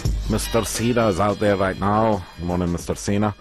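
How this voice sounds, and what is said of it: Bad put-on Scottish accent. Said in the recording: “That is the worst Scottish accent I've ever heard ... I have a terrible Scottish accent”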